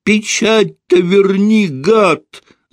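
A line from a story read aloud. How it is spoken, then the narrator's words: Screamed. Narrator (Russian): завопил чиновник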